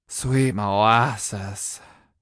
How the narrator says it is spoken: I breathed

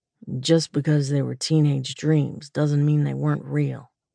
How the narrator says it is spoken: he said quietly

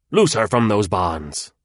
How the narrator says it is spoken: he shouted suddenly

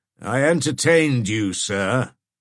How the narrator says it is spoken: said John, haughtily

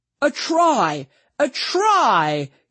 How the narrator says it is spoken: yelled Freddy

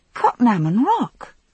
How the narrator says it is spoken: I exclaimed

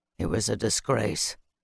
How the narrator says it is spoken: Bannock muttered

